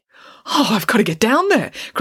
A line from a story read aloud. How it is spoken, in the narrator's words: cried the headmaster